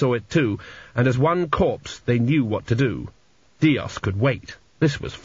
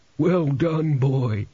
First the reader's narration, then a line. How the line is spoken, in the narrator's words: groaned a crumbling mummy